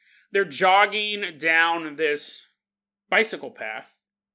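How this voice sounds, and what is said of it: Usual voice. Nothing is said of it.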